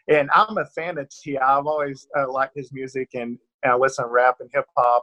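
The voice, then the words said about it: Southern American accent. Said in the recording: “the Southern accent's a little tough to thin out”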